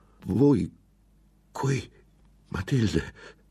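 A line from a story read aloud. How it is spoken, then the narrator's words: Stammered. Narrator (Italian): balbettò alla fine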